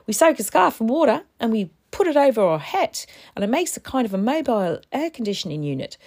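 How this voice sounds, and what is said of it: Terrible put-on accent. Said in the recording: “This is a terrible accent.”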